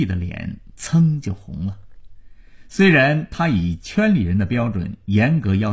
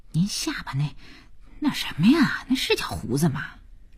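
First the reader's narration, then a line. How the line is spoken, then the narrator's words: Soft, embarrassed question. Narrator (Chinese): 佳音 觉得丢人 他 轻声地问父亲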